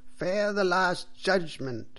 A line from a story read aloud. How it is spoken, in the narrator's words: cried the priest loudly and angrily